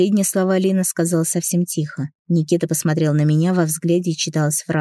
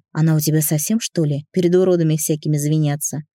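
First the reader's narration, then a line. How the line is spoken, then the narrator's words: Gentle, resigned reply. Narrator (Russian): Обреченно покачал головой и ласково ответил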